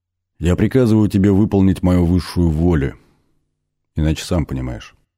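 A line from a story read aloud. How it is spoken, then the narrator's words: Menacing commanding spirit. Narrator (Russian): продолжил дух грозным повелительным тоном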